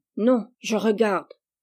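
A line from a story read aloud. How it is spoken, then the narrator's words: Grumpy. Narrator (French): Gisèle d'un air grognon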